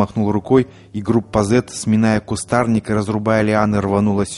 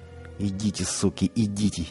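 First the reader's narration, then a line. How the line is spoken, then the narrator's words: Barely audible whisper. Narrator (Russian): еле слышно прошептал он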